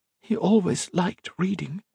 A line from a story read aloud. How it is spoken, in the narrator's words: Octavia whispered